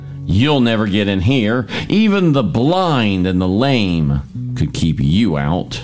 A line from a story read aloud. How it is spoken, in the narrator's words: The Jebusites taunted David, saying